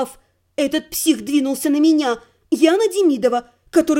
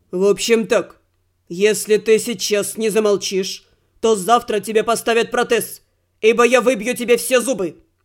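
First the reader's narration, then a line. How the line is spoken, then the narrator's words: Growling chief. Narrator (Russian): Рыкнул главный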